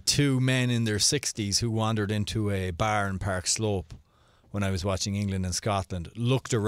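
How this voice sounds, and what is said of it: Usual voice. Nothing is said of it.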